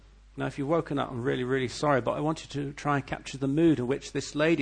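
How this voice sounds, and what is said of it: Usual voice. Nothing is said of it.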